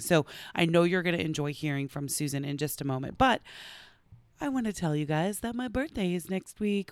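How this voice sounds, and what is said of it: Partly lost, strained voice. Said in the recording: “as you can hear, I'm actually losing my voice a little bit”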